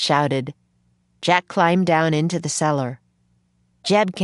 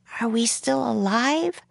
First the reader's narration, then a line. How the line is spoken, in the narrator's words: she whispered